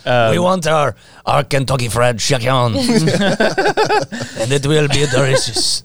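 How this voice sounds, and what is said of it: Poor attempt at French accent. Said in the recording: “I can't do a French accent.”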